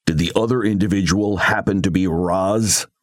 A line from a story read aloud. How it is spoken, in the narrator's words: A deep growl rumbled from her throat